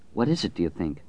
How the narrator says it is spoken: Franny murmured

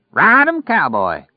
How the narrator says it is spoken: Lloyd yelled

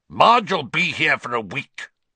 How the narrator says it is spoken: Uncle Vernon snarled

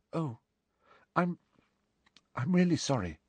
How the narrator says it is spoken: said Hermione in a very small voice

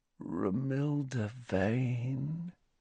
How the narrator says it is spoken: said Ron softly

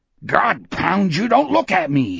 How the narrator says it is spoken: he bellowed

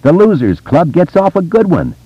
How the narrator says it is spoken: Richie yelled exuberantly

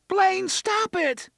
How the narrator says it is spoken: Susanna shrieked

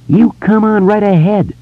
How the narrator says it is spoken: Richie shouted

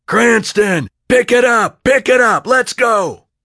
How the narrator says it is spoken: Then the foreman would yell

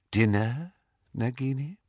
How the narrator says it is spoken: said Voldemort softly

